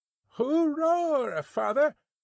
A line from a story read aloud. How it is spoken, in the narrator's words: cried young Jerry